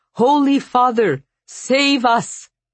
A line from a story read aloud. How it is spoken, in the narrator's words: One of Dimitri's guards cried out